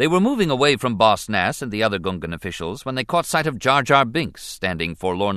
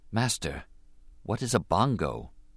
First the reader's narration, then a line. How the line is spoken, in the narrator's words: Obi-Wan whispered